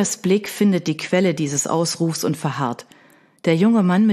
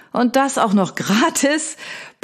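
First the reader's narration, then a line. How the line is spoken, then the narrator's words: Booming giant, grunting laugh. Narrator (German): poltert der Hühne und fällt in ein grunzendes Lachen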